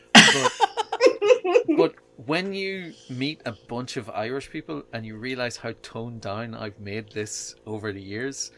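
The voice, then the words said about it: Irish accent. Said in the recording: “I don't have a thick Irish accent, and obviously I do”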